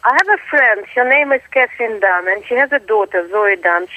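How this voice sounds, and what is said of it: Russian-sounding accent. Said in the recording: “I'm not really Russian, I'm Australian, but I do sound Russian. My accent”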